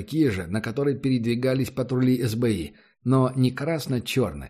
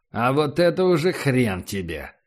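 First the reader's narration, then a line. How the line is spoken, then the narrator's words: Angry, through teeth. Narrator (Russian): зло процедил Эрих Вакс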